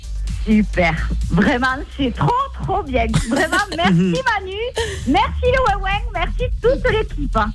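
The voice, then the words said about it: Noticeable regional French accent. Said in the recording (French): “C'est drôle, ... avec cet accent, c'est magnifique ... Mais avec cet accent, tu, même quand t'annonces une mauvaise nouvelle, ça a l'air sympa.”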